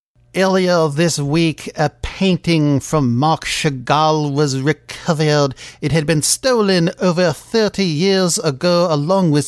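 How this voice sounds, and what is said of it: Pink Panther movie put-on accent. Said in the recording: “this accent that I took from a Pink Panther movie”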